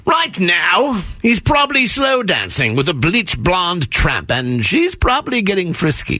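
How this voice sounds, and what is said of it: Put-on British Shakespearean actor accent. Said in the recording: “I will be reading the part of the Shakespearean actor. ... my awesome British accent”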